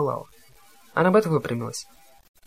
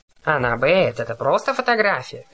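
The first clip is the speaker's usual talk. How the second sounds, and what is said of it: Poor mocking imitation of a voice. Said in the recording (Russian): “передразнила ... бездарно подражая моему голосу”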